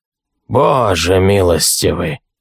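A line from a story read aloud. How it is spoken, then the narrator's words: Breathless, priest. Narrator (Russian): выдохнул священник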